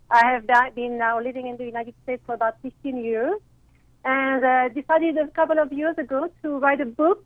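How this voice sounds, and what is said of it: French accent in English. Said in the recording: “as you can hear in my voice, I am not from here. I am originally from France”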